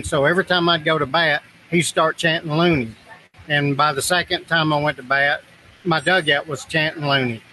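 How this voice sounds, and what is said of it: North Alabama Southern accent. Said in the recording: “I'm just loving these accents ... Mine is really working them over ... You're real exotic ... North Alabama”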